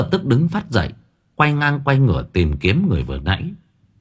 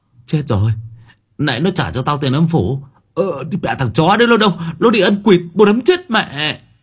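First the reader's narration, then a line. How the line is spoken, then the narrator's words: Stammering. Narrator (Vietnamese): Nó lắp bắp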